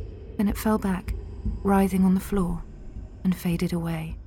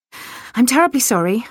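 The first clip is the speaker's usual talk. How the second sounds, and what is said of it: Gasping, out of breath. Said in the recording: “I gasped, still out of breath.”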